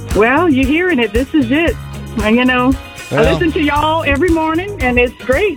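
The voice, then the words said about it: Strong Southern Louisiana accent. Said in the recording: “I love a Louisiana accent ... boy, that's a strong accent ... You got the standard Southern.”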